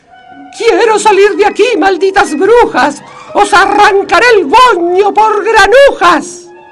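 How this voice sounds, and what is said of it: Screaming at the top of her lungs. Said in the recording (Spanish): “se desgañita ... ¿Por qué gritas así?”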